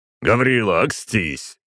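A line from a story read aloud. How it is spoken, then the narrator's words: Growling man. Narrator (Russian): рыкнул Николай Петрович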